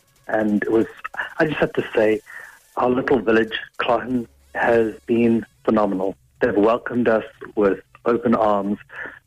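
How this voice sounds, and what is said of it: South African accent. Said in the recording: “that doesn't sound like an Offaly accent that you have... I'm from South Africa originally”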